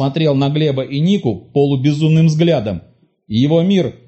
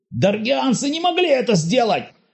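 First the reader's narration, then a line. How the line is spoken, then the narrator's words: Frenzied furious shout. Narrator (Russian): В исступленной ярости закричал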